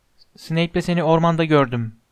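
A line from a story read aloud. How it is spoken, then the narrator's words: Plain. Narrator (Turkish): dedi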